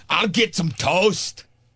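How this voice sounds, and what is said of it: Put-on angry Scottish accent. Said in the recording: “Is that Angry Scott? ... I think it's Angry Scottish. ... Sounded a little Austrian to me.”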